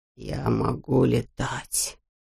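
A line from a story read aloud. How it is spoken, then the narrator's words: Whisper. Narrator (Russian): прошептал он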